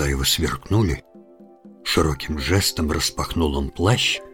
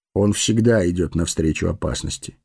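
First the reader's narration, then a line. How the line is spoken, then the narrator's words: Calm, measured. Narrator (Russian): спокойно сказал странник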